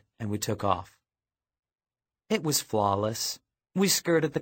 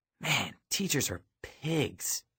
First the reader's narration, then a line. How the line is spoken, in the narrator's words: I hissed